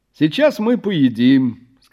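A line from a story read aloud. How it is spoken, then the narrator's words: Cheerful. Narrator (Russian): сказал я бодро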